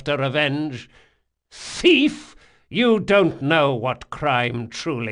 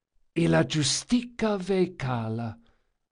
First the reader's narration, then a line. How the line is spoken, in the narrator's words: Locke whispered